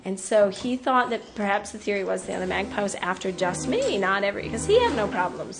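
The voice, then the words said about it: American accent. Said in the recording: “in this American accent”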